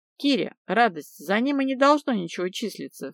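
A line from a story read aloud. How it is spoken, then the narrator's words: Snorting into phone. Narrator (Russian): фыркнула я в трубку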